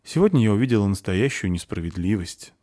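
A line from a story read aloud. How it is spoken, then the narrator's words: Sighing. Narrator (Russian): вздохнула Заверушка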